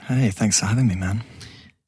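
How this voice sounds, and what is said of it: Whispering. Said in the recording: “Why I'm whispering like this.”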